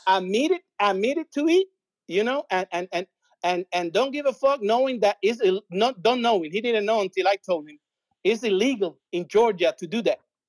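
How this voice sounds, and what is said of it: Strong non-native English accent. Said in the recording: “you see how my English get better when I get mad, right? you know, I got a tough accent”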